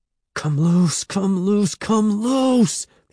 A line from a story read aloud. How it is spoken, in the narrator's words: he begged